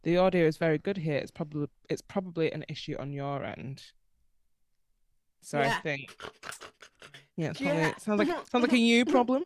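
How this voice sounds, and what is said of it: British accent. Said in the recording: “they couldn't understand it because of our British accents ... accept the British accent”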